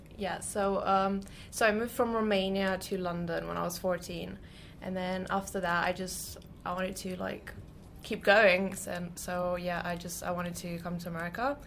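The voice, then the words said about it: Slight English accent. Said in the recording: “you have a little bit of an accent. ... You are here from London, England.”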